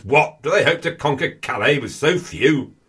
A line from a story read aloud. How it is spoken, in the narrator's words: he looks a bit confused and bellows